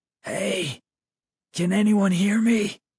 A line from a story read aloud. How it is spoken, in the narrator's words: My voice came out a hoarse whisper